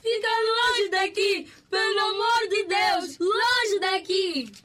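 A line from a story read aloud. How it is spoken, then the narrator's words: Two women shouting. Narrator (Portuguese): As outras duas gritaram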